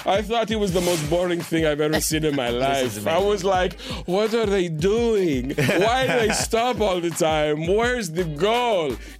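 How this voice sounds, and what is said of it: Giselle Bündchen Brazilian supermodel accent impression. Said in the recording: “your best Brazilian supermodel accent ... that is the voice I'm going to hear”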